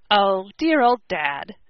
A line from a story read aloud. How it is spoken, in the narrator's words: exclaimed Tom affectionately